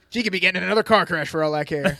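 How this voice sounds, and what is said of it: Weird impression of a TV character. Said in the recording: “That's a weird Nate impression. ... weird Nate impression ... that became my Nate impression”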